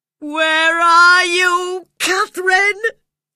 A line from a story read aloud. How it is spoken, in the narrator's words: cried in despair